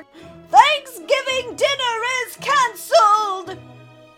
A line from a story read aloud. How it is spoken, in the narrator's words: took a deep breath, and shouted for his whole neighborhood to hear